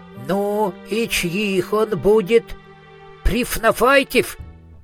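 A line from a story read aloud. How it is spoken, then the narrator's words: Lisping. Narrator (Russian): прошепелявил Офлер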